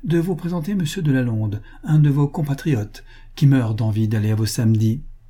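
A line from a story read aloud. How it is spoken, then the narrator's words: Casual, offhand. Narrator (French): dit-il d'un ton dégagé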